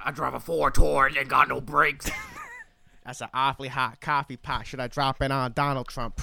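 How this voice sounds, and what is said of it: Imitates another person's voice, freestyle rapping. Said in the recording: “that impression. That's so good. ... my Eminem impression”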